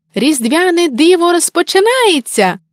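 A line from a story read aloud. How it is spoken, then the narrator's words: Joyful exclamation. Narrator (Ukrainian): радісно вигукнув Миколай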